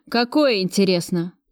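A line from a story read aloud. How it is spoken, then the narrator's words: Venomous question. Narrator (Russian): ядовито спросил Кравцов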